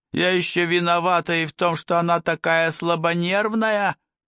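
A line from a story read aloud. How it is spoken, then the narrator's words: Yelling, attacking. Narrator (Russian): заорал, перейдя во фронтальную атаку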